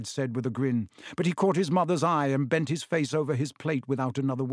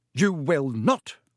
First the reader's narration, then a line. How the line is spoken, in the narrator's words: snapped Mrs